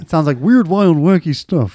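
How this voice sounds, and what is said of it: Deliberately bad imitation of another voice. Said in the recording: “I'm doing an impression of someone doing a bad impression. ... I'm doing an impression of someone who does a bad impression of Johnny Carson. ... you seem like Cameron from Ferris Bueller's Day Off when he's doing the principal.”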